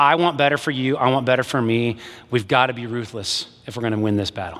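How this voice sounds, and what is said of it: Usual voice. Nothing is said of it.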